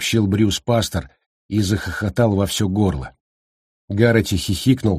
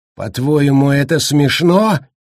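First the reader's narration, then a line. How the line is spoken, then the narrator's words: Sudden roar. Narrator (Russian): вдруг взревел он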